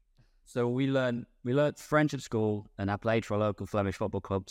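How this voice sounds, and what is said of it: British accent. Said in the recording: “I always had a British accent. I can't get rid of that, so people can tell I'm clearly not French.”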